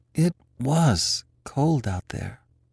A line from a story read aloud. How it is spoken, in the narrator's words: he sighed